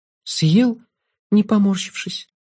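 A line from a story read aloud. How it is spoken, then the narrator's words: Sighing. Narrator (Russian): вздохнула Алекс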